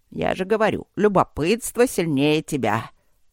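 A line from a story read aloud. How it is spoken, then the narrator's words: Pleased snort. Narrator (Russian): довольно хмыкнул Черныш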